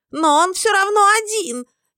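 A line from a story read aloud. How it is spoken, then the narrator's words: Hysterical shriek. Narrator (Russian): истерично взвизгнул кто-то из его прихвостней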